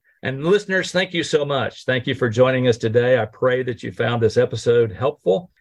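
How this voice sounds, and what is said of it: Oklahoman American accent. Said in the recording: “Everything comes with an Oklahoman accent too, which I'm not sure I will ever avoid.”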